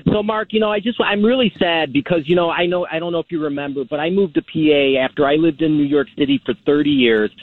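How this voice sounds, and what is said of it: Thick New York accent. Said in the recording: “I can hear the thick New York accent”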